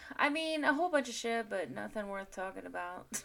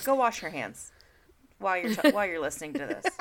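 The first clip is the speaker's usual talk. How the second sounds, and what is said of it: Serious voice, close to microphone. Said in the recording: “You got like closer to the microphone ... That was my serious voice.”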